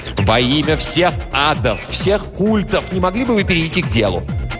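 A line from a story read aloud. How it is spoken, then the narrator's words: Shout. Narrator (Russian): он крикнул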